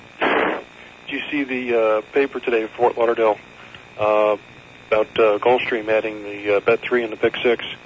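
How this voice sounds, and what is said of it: Hoarse voice recovering from laryngitis. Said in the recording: “excuse my voice. ... Still getting over laryngitis from the game. ... I'm still having trouble getting it back.”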